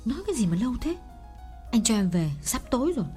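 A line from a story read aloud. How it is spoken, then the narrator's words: Irritated snap. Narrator (Vietnamese): nàng gắt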